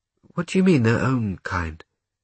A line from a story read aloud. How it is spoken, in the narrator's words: Gretel sighed